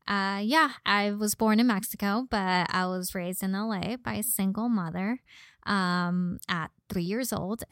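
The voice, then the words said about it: Slight Valley Girl accent. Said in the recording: “You can probably hear a little bit of my voice ... apparently I have a little bit of a Valley Girl accent”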